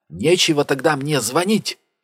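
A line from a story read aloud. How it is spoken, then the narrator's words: Shout. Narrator (Russian): выкрикнула Джулия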